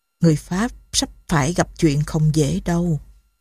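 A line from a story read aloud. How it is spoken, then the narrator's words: Soft, emotional. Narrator (Vietnamese): Thiếu tá Betty lộ vẻ xúc động, khẽ bảo Saint-Denis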